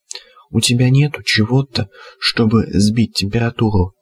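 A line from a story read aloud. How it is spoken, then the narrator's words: Strange rattling voice. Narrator (Russian): спросила Алена странным дребезжащим голосом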